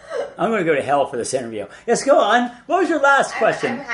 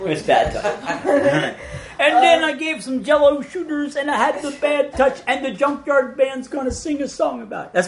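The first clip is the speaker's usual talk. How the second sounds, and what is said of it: Imitates another person's voice. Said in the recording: “my Bill Cosby impersonation”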